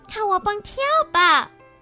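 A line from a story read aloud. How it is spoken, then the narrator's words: Shrill voice. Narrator (Chinese): 小豆尖声说着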